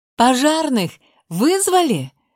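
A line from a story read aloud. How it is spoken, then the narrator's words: Stressed shouted question. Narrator (Russian): спросила, точнее, прокричала я, понимая, что в таком стрессе это реально могли не сделать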